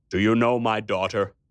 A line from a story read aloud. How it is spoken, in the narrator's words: he asked me